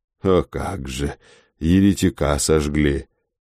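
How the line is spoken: Quiet, tender priest. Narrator (Russian): отвечает попик тихо и умильно

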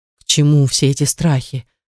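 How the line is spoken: Trembling voice. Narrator (Russian): проговорил он дрожащим голосом

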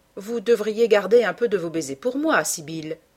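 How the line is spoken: Young man, friendly grunt. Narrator (French): dit le jeune homme avec un grognement amical

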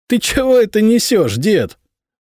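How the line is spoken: Young man guffawing. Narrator (Russian): захохотал юный король

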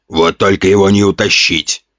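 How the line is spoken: Amused grunt. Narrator (Russian): хмыкнул Ген

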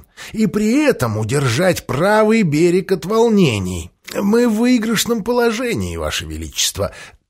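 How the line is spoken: Wheezing rasp. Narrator (Russian): просипел Джефферсон

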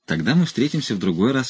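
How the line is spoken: Polite. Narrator (Russian): вежливо сказал Бонза

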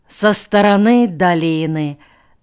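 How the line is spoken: Lazy, automatic tone. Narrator (Russian): автоматически лениво фиксировал Алекс

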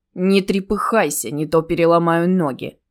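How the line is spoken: Threatening thug's growl. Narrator (Russian): угрожающе прорычал один из подонков

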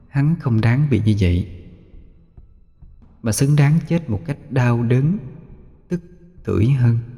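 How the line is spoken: Sinister soft whisper. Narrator (Vietnamese): khóe miệng nhếch lên một nụ cười quỷ dị, khẽ thì thầm vào tai Xuân

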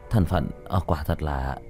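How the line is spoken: Muttering. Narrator (Vietnamese): Chu Giai Hào lẩm bẩm

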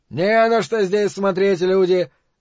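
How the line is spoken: Loud declaration. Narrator (Russian): заявил громко

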